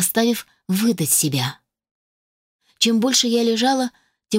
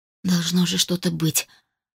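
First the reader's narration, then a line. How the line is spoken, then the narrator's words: Barely audible mutter. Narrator (Russian): пробормотала едва слышно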